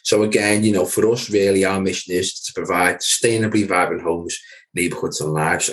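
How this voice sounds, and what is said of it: Merseyside local accent. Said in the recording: “part of Merseyside. So guys, if you can tell by my accent, yes, I'm a local guy”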